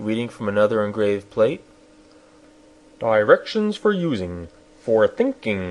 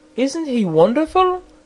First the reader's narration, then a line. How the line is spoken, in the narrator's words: exclaimed the princess